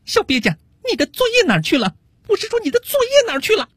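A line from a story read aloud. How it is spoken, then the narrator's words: Teacher scolding. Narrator (Chinese): 老师……训斥道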